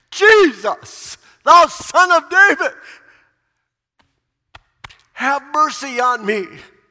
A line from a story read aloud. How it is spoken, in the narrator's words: He cried out at the top of his voice